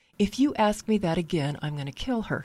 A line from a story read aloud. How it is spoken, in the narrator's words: he said